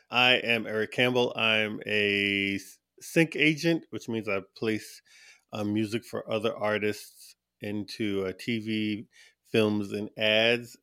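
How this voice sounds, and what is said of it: Slight regional accent. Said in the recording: “I can hear there's a little accent.”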